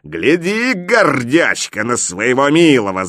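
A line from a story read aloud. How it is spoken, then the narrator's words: Angry shout. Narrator (Russian): закричал Горыныч злобно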